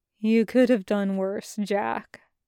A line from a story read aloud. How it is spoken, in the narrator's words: he says quietly